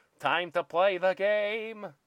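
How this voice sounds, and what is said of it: Impression of a song's vocal line. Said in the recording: “Is that a good impression? ... That was pretty good. I thought you pressed play on the song, frankly.”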